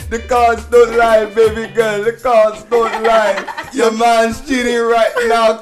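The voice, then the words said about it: Put-on Jamaican accent. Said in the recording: “the Jamaican accent ... Cue the Caribbean music. ... Do the Miss Cleo thing.”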